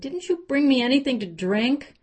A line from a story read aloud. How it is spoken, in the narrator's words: He whined